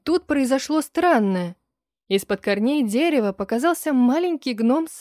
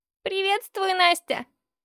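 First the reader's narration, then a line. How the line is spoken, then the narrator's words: High creaky voice. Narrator (Russian): сказал он высоким скрипучим голосом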